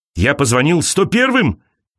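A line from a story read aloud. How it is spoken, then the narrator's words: Shouting. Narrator (Russian): кричал он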